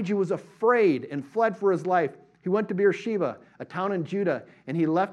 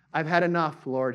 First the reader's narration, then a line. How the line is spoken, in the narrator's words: said